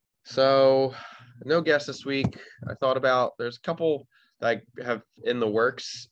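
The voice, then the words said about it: Congested, stuffy-nosed voice. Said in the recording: “I don't know if you guys can tell from my voice, but I've had like a stuffy nose all day.”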